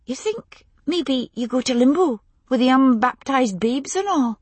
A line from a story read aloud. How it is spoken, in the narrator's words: Lizzie asked anxiously